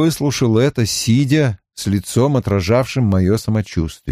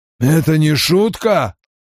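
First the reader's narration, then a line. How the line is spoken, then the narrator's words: Hoarse rasp. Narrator (Russian): прохрипел он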